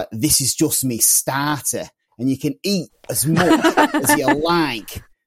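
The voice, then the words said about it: Imperfect imitation of a Scouse accent. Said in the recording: “that was a little bit off base for a Scouse accent there”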